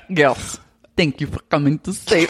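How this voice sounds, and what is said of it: Attempted Russian accent. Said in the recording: “now I want to do like a Russian accent ... One of us has to be able to get it”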